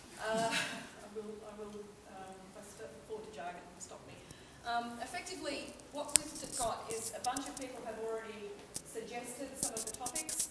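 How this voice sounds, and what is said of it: Australian English accent. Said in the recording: “apologies for the accent, I'm Australian”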